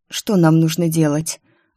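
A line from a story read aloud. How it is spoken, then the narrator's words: Hoarse question. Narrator (Russian): охрипшим голосом спросила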